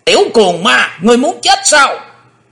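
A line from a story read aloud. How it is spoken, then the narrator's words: Sudden shout. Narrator (Vietnamese): lão quái ngư bất chợt đã quát lên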